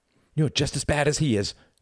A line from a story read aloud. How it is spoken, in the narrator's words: cried Reginald